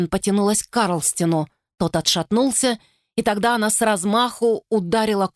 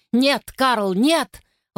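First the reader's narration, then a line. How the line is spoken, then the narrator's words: Shouted. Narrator (Russian): выкрикнул Трид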